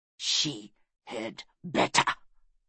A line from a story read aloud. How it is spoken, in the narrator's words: hissed